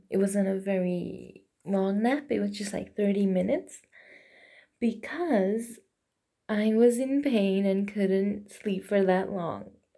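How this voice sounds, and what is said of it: Slightly rough, just-woken voice. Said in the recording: “I sound a bit rough. I just woke up from a nap.”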